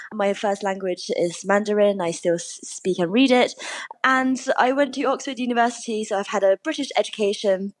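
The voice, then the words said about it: Posh English accent. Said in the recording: “listeners can hear this suspiciously posh English accent”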